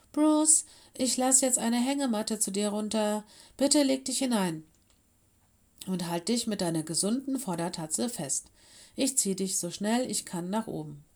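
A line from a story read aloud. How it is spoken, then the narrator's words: Calling out. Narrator (German): rief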